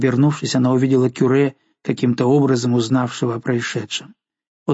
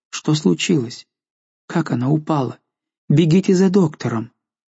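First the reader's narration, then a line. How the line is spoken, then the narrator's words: Bewildered questioning. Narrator (Russian): Жанна растерянно спрашивала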